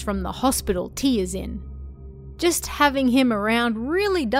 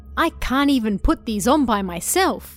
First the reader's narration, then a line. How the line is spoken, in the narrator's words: she said happily